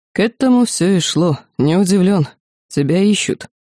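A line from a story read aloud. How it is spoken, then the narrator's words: Thoughtful priest. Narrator (Russian): священник задумчиво произнес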